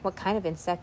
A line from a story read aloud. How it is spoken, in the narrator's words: Alice inquired a little anxiously